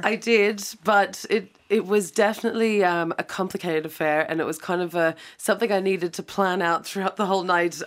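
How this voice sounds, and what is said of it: Croaky, worn-out voice. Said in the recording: “My voice is a bit worse for wear, a bit croaky.”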